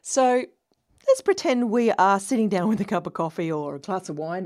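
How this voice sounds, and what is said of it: Australian accent. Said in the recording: “as you can tell by my accent, I'm Australian. No, I'm not a Kiwi. I'm not from New Zealand. I am Australian.”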